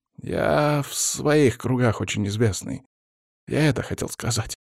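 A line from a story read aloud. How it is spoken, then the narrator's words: Mumbling. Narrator (Russian): забормотал Вяземский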